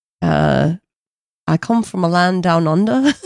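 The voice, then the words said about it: Attempted Australian accent, sounds British. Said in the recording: “Do your best Australian accent, please. ... That was a better British accent”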